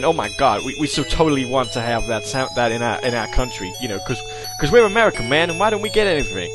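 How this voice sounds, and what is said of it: Bad put-on American accent. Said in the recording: “that's a really bad American accent.”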